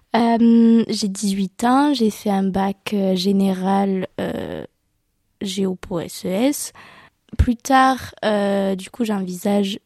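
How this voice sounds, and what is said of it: Slight southwestern French accent. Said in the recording (French): “je viens de Fumel, c'est dans le sud-ouest. Du coup, j'ai un petit accent.”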